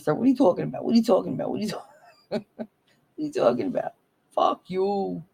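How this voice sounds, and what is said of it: Thick put-on New Jersey accent. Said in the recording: “The thick Jersey accent.”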